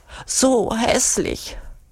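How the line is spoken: Whining. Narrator (German): jammert Urugulla

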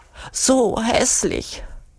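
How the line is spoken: Whining. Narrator (German): jammert Urugulla

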